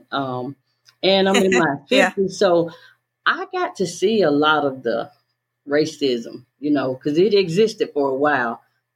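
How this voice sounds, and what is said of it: Southern American accent. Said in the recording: “I was born in the South, as you can tell by the accent.”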